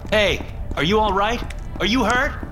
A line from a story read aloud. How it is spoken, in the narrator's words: I yelled